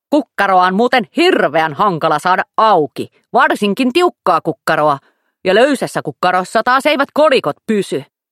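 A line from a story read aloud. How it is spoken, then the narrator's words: Wallet snapping. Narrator (Finnish): joku lompakko taas ärähti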